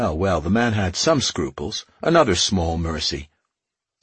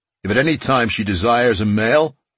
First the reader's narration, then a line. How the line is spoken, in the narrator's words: Puck added, his tone sharpening